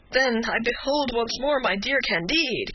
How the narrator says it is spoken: cried Pangloss

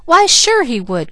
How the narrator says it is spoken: cried

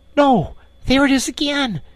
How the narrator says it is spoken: he cried, alert once more

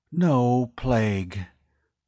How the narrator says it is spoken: Weeks breathed a sigh of relief

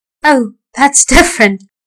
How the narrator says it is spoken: laughed the man

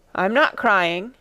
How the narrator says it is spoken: answered Ermengarde in a muffled, unsteady voice

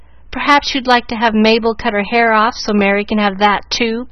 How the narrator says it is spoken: cried Susie, with whom hair was a tender point

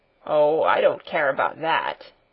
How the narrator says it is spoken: he grumbled in reply

